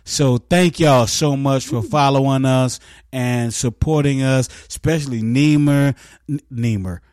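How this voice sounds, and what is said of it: Country West Virginia accent slipping out. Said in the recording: “I sound so country right now ... That's my West Virginia side coming out”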